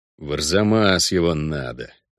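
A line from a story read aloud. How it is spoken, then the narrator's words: Angry, through teeth. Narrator (Russian): зло процедил Геральт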